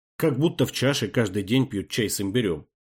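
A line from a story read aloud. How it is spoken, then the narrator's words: Grumbling. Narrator (Russian): проворчал Амир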